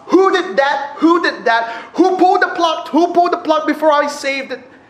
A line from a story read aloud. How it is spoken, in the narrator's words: He kept shouting at us